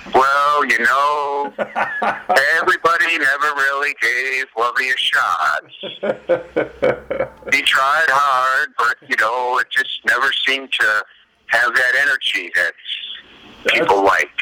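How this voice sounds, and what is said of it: Impression of coach Lovie Smith. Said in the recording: “your Lovey Smith impression”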